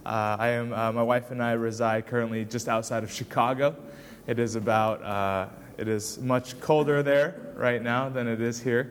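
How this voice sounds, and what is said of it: American accent. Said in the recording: “Perhaps you can tell from my accent that I am from the States.”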